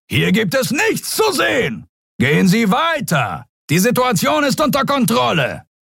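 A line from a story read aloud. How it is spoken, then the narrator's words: Bellowed at crowd. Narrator (German): zu der gaffenden Menge brüllte er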